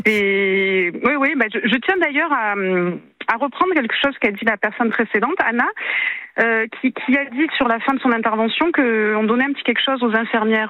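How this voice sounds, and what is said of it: Sing-song southern French Marseille accent. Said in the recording (French): “un petit accent du Sud ... accent chantant de Marseille”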